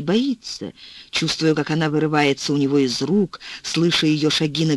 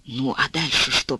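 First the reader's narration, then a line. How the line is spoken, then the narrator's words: Whisper. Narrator (Russian): прошептал он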